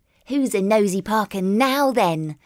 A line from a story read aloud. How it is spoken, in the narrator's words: chuckled Billy playfully